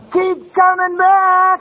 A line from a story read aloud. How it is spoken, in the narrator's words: one of the old-timers yell out